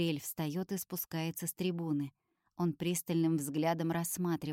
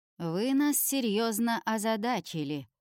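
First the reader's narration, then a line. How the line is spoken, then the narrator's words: Resonant voice. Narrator (Russian): говорит он звучным голосом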